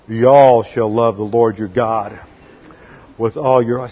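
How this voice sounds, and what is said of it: Put-on Southern US accent. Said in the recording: “that southern accent comes in handy every now and then”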